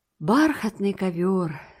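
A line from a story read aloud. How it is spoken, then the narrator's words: Delighted sigh. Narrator (Russian): вздохнула Энн восторженно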